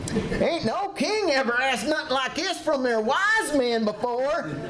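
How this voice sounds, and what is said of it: Put-on southern accent. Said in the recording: “that southern accent”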